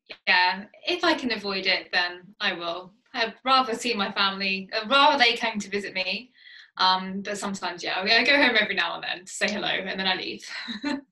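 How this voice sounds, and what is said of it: English Essex accent. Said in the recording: “if anyone hasn't picked up on the accent yet, ... from the UK, from Essex.”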